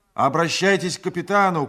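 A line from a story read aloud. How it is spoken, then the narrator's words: Shout. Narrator (Russian): крикнул я ему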